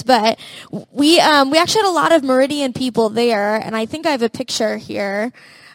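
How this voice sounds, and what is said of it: Tired, partly lost hoarse voice. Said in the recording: “I'm a little tired, and my voice is a little gone”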